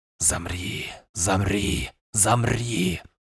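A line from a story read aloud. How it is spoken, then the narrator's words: Ghostly rustling whisper. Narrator (Russian): Прошелестел призрачный шепот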